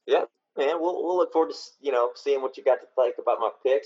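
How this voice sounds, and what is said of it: Southern rural American accent. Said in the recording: “I may talk like a hick ... two Southern boys”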